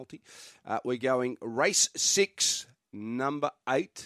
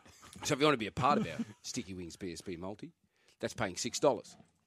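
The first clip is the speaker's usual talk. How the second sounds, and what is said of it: Soft, hushed commentator-style voice. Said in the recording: “talking in a softer voice ... Sound like you're commentating on the snooker.”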